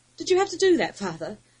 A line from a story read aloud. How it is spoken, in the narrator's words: Guston gasped